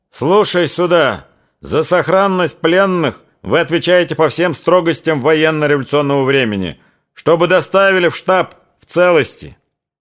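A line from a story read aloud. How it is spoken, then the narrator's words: Shouting. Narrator (Russian): он закричал казакам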